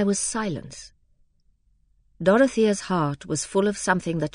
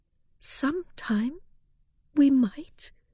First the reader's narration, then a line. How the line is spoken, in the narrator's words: said in a trembling voice